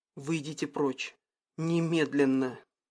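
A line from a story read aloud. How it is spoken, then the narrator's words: Slightly hoarse female voice. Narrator (Russian): Ее голос был чуть более хриплым, чем обычно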